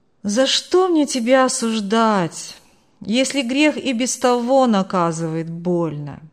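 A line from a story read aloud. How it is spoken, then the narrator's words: Calm. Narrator (Russian): Спокойно продолжил Марк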